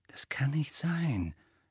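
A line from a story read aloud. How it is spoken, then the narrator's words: Quiet objection. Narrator (German): widersprach Hermine leise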